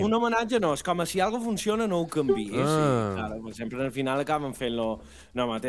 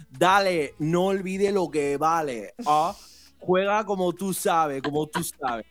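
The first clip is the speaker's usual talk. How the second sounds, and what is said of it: Put-on Latin American Spanish accent. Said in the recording (Catalan): “Te queda molt bé aquest accent ... estereotip latino”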